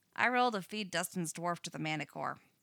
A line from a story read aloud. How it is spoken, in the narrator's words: Max says flatly